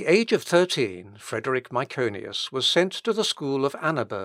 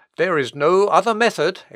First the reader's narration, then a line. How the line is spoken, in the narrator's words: exclaimed Tetzel in his voice of thunder